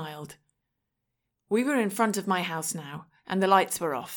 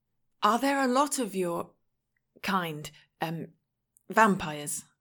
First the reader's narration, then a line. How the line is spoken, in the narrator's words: I asked